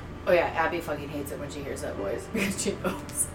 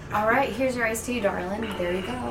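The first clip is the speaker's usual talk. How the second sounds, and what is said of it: Put-on Southern accent. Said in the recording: “I go into the southern accent”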